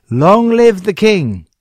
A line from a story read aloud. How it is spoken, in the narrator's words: the people clapped their hands and shouted